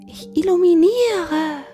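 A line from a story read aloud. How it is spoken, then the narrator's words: Small cat calling down. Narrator (German): rief die kleine Katze herunter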